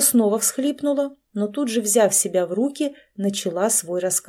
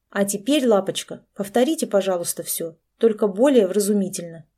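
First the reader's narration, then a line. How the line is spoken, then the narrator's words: Stern. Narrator (Russian): сказала строгим тоном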